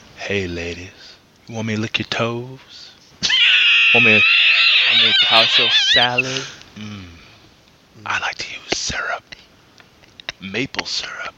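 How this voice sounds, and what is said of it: Put-on sexy seductive voice. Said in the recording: “take it over with your sexy voice”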